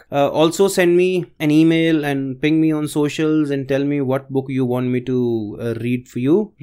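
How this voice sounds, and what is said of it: Slightly off, unwell-sounding voice. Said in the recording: “my voice is a little off track because I've been suffering through this viral fever”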